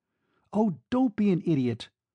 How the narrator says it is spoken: she exclaimed

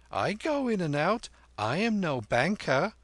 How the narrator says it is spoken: laughed Kim

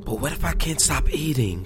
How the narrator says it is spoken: she whispered, blinking quickly until the tears had retreated

